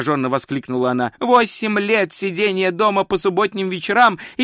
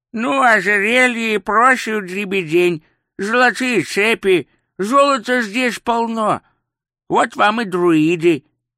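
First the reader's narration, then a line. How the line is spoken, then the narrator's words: Old man's toothless mumble. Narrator (Russian): прошамкал старик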